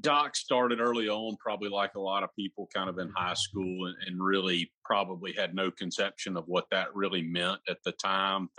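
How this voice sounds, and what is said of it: Alabama Southern American accent. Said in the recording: “I just love listening to your voice and your accent... It seems like you're in Alabama”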